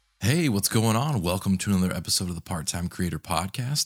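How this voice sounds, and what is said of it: Deep, raspy early-morning voice. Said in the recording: “Doing another early morning episode. So as always, if my voice sounds super deep and raspy”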